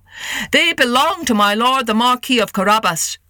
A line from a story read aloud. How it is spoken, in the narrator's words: cried the harvesters